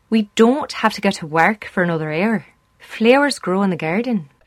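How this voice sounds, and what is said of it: Unconvincing put-on Irish accent. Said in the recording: “That's the way we talk, apparently. ... This woman's being paid to teach people how to do an Irish accent. ... she's giving people what they call a good fleecing”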